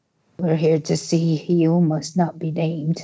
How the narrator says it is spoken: rasped Greyback

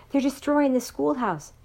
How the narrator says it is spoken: said, gasping for breath

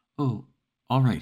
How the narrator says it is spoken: he stammered

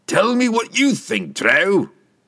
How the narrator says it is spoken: Brunner bellowed

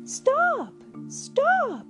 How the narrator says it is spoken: cried

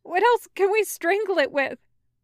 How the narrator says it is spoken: Wei Wuxian asks, his voice shaky

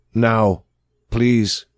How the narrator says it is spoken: says

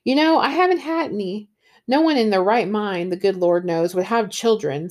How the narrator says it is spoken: said Mrs

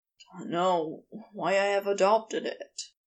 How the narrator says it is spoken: Crowley said with a sigh

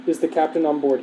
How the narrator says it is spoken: he asked

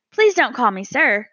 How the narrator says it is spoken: cried Stuart

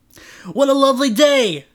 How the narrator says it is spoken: Trent exclaimed

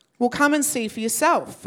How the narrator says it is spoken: Philip replied

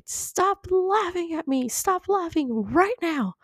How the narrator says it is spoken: T-Rex Mom exploded and shouted

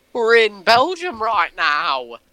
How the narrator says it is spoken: we just started screaming

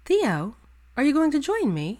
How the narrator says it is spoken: her Luna asked sweetly

